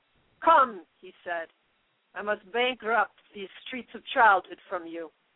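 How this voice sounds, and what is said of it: Put-on Russian accent. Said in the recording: “Did you like my Russian accent? ... Yeah, you sounded great.”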